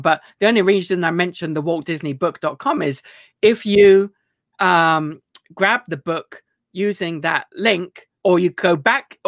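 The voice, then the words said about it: British accent, somewhat Americanized. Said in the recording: “If you can understand a British accent. ... you've become a little more Americanized, maybe.”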